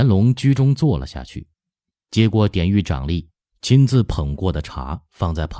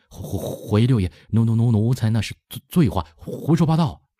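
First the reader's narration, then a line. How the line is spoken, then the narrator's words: Stammering. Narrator (Chinese): 结结巴巴的说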